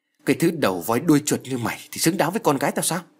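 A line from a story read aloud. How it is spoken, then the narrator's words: Angry. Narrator (Vietnamese): Ông Hơn ... giận dữ nói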